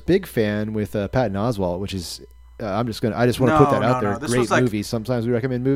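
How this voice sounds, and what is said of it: Usual voice. Nothing is said of it.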